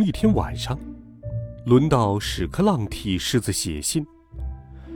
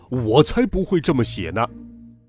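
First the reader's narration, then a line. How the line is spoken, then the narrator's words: Loud roar. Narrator (Chinese): 狮子大吼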